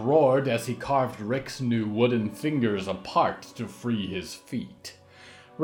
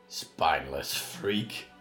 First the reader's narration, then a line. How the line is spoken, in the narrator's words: Bosco grunted